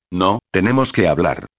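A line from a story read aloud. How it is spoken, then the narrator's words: Serious, insistent tone. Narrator (Spanish): insistió Vanessa, con tono serio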